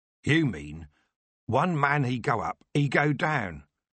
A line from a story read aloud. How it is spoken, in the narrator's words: Captain Makepeace said